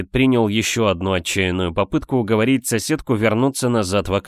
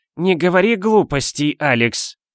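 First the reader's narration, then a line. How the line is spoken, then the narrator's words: Loud snort. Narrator (Russian): она громко фыркнула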